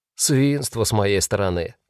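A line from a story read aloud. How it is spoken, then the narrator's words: Repentant sigh. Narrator (Russian): покаянно вздохнул немец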